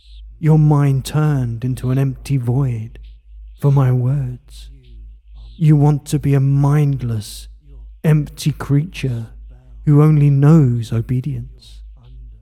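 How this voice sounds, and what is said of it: Soft, controlling voice. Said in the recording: “My voice is the soft power”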